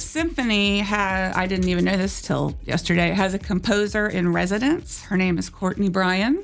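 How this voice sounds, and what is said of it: Usual voice. Nothing is said of it.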